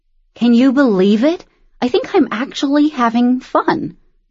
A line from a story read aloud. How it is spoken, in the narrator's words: Pen said, chewing happily